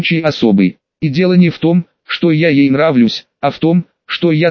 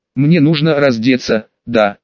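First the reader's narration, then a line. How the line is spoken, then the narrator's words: Timid question. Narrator (Russian): робко спросила девушка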